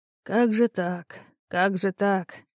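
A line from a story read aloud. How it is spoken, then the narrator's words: Muttering. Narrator (Russian): пробормотал Иринеус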